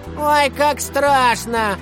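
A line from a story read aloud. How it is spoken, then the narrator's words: Mocking shout. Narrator (Russian): насмешливо выкрикнули из класса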